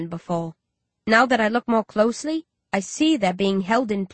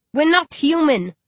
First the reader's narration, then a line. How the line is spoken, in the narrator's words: he snaps